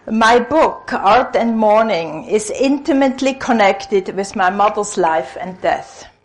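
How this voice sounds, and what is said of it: Swiss-Israeli mixed accent, 'Freudian'. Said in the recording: “my funny accent, which my patients in A call a Freudian accent, comes from Switzerland, where I'm originally from, and I've lived several years in Israel, so it's a funny mixture”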